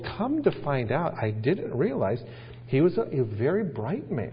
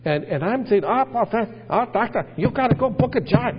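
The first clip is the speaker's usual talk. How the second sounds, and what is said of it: Put-on Korean-accented English. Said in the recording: “I start talking English Korean ... I just start getting this accent”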